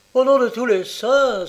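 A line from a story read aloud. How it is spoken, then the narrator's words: Exclaimed. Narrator (French): s'écria-t-il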